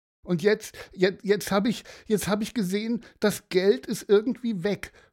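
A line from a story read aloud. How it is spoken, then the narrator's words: Sobbing. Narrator (German): schluchzte Aaron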